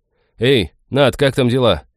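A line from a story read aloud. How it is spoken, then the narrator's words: Loud call. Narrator (Russian): громко окликнул он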